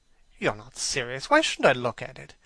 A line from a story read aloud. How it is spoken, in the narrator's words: exclaimed Hallward, laughing